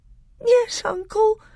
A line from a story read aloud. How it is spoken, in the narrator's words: sobbed Caspian